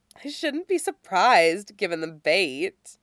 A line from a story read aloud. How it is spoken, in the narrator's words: Sally says, her amused tone